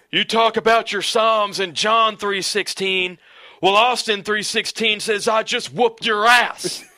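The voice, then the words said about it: Impression of Steve Austin. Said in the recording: “Steve Austin says, can I do the voice too?”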